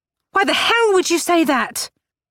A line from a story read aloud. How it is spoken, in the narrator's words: Grace shouted